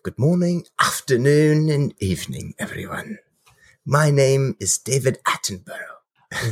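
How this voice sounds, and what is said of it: Put-on proper English accent. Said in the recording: “keep that accent going ... a little bit more proper English”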